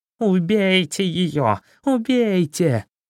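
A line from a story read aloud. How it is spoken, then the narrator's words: Screaming in pain. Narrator (Russian): Хитроус стал кататься по земле от боли и вопить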